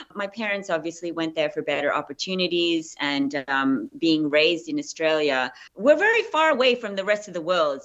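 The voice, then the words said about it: Australian accent. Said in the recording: “I'm still very, very Australian, as you can tell with my accent.”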